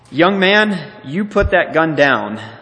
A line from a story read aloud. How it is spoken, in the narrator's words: Louise commanded firmly